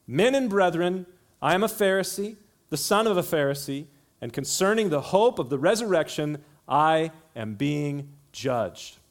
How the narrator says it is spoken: he cried out to the council

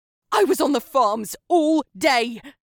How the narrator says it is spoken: Inches from his face, Gemma screamed

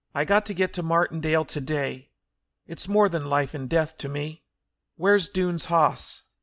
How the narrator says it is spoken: he called desperately

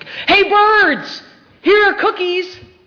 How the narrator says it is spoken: he shouted in a loud voice

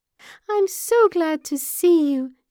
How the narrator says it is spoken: she squeaked

